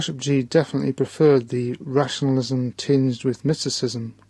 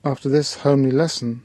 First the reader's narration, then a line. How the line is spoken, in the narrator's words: said my teacher